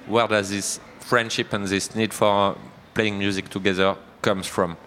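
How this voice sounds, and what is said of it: Strong French accent in English. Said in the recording (French): “I have a very strong French accent.”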